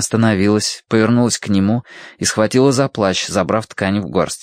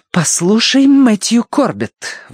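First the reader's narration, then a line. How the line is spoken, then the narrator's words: Angry exclamation. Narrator (Russian): воскликнула девушка, раскаляясь от гнева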